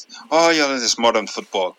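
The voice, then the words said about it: Put-on Irish accent. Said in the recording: “Irish accent. That is much better. That Irish accent was much better than I thought you could manage.”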